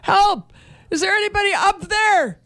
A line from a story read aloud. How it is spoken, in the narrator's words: shouted